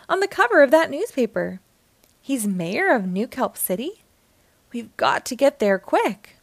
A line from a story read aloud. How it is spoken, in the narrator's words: exclaimed Sandy